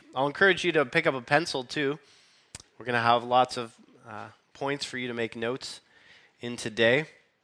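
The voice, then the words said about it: Weak, recovering voice. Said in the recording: “I lost my voice after last Sunday, and so I've been slowly regaining it this week. So bear with me as it's a little weak.”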